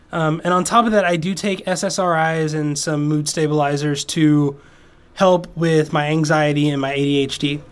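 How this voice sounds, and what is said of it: Hoarse, fading voice. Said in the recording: “my voice, which is starting to go out, I've been sick”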